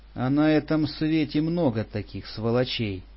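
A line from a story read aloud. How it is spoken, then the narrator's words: Sighing old man. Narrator (Russian): вздохнул дед Макар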